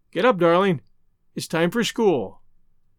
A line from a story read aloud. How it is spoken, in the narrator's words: she would say mournfully